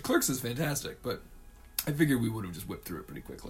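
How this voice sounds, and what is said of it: Hoarse, smoky voice. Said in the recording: “I just lost my voice from coughing ... I'm gonna sound super sexy for the rest of the podcast ... You're all smoky”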